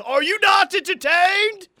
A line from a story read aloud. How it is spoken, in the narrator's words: Patty Gasso goes to the circle, throws her clipboard down and yells